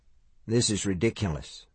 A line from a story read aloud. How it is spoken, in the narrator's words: Mike murmured